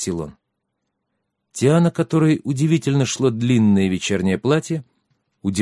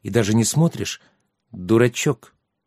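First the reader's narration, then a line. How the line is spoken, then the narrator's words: Quiet reply. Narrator (Russian): тихо ответила Тиана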